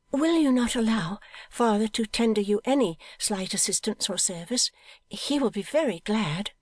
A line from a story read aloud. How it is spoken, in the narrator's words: said Pet, timidly